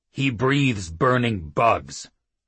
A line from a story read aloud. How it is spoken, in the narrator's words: Oates told her sharply